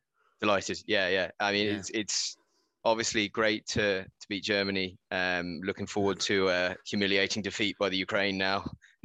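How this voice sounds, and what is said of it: English accent. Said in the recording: “You have an English accent.”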